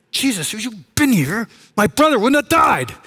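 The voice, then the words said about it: Angry, frustrated emotional delivery. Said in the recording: “said it with emotion, with anger, with frustration.”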